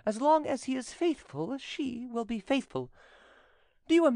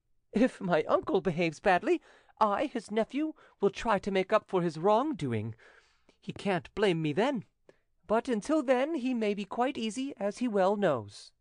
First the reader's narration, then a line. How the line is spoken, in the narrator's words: went on the young man with a laugh